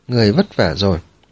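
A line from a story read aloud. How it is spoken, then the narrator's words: Warm, gentle, smiling. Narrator (Vietnamese): mỉm cười, ôn hòa nói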